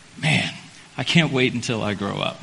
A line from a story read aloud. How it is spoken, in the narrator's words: I normally mutter to myself